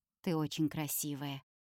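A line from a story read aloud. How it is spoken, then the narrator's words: Quiet. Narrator (Russian): тихо говорит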